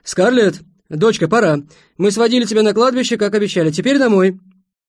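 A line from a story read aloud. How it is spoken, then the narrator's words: Father shouting. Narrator (Russian): Ее отец крикнул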